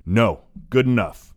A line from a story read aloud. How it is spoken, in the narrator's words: shouts Hayduke sternly